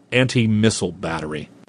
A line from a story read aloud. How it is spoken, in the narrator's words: he snapped